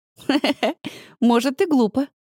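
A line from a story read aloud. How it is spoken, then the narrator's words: Laughing. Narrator (Russian): рассмеялась Полина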